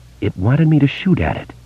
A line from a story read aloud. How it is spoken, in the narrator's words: Beverly said in a faint voice